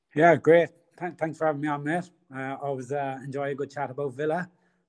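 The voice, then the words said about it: Irish County Cork accent. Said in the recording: “your accent, uh, geez, a bit of a different one there, mate... It's uh, County Cork in Ireland... it's a beautiful, uh, beautiful accent”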